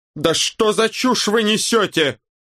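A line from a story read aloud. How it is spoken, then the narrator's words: Yelled. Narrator (Russian): заорал Локи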